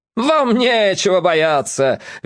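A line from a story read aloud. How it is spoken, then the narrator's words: Man's cheerful shout. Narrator (Russian): весело закричал носатый дядька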